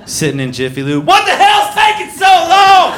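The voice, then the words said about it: Yelling. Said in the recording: “sorry for yelling”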